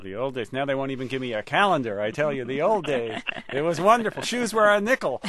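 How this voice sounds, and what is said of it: Put-on Yiddish accent. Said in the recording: “I'm developing a Yiddish accent, apparently”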